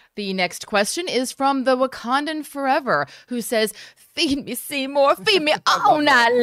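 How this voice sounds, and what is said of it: Usual voice. Nothing is said of it.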